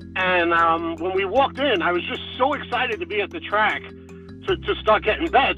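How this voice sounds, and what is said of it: New Jersey accent. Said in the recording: “by the sound of your accent, you're from New Jersey.”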